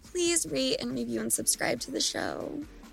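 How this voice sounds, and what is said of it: Put-on sexy voice. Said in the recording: “did you hear me put my sexy voice on to ask that?”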